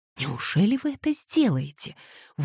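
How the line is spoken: Terrified exclamation. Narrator (Russian): в ужасе воскликнула Кэтлин

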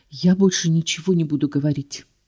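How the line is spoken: Whisper. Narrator (Russian): шепнула Клэр

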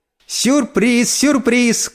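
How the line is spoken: Shout. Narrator (Russian): крикнула

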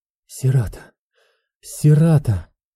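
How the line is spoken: Strained, faltering voice. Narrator (Russian): с трудом выдавила прерывающимся голосом

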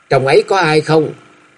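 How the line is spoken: Raised voice calling. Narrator (Vietnamese): Hà Gia Gia cao giọng gọi vọng vào

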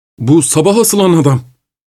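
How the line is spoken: Cried out. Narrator (Turkish): diye haykırdı

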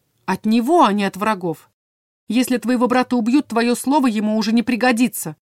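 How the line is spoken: Barking. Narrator (Russian): рявкнула я

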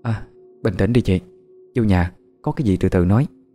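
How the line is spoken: Frightened stammer. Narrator (Vietnamese): bà Thúy nhìn cô Đồng Liên bằng ánh mắt sợ hãi, lắp bắp

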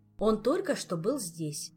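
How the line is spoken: Plain. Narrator (Russian): сказала Эльвира

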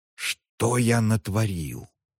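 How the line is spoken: Shocked whisper. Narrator (Russian): потрясенно прошептал тот

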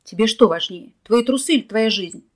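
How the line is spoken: Exhausted bellow. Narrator (Russian): гаркнул Николай, выбиваясь из сил

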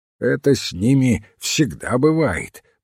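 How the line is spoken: Grumbling. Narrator (Russian): пробурчал мистер Мандевиль

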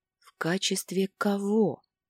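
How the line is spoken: Strained whisper. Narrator (Russian): смогла прошептать

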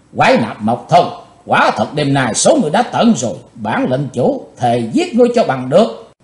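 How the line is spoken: Shouted with hatred. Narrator (Vietnamese): Chàng thét với giọng căm thù

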